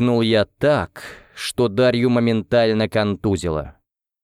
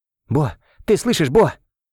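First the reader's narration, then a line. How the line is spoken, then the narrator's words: Breathed out. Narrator (Russian): выдохнул я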